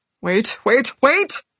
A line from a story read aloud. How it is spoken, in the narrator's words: the cowering man said, his voice growing louder with each plea